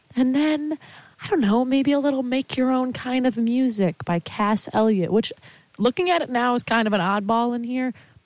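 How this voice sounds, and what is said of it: Congested, stuffy-nosed voice. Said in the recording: “I'm recovering from a sickness. That's why I kind of sound like I have a softball shoved up my nose... I don't really have my soft ASMR radio voice right now”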